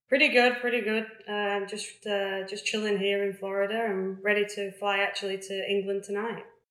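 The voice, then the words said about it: English Lincolnshire accent. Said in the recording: “top up the accent, but it doesn't sound like it's remotely gone whatsoever ... I just don't lose my accent that much ... I'm from Lincolnshire”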